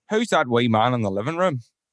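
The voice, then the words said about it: Put-on Northern Irish accent. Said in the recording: “I'd never tried to do the accent before ... Northern Irish”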